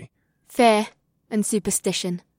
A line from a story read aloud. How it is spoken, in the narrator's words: she murmured